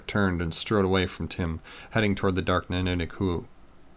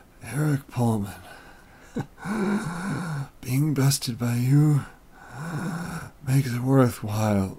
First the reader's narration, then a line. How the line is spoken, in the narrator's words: a raspy voice said